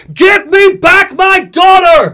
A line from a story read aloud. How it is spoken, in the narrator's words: Booker screams